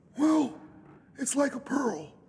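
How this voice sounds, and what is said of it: Imitates another person's voice. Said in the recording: “I'll do my best Duke Spaulding imitation.”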